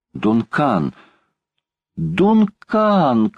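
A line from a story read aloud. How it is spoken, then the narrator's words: Desperate shout. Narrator (Russian): крикнул Паганель в отчаянии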